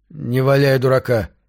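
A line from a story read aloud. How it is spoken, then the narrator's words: Stern. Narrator (Russian): строго сказал Вилли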